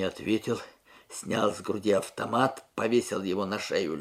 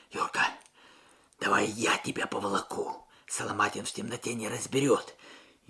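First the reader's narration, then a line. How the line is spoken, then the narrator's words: Muffled whisper. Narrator (Russian): прижавшись губами к мокрому капюшону товарища, прошептал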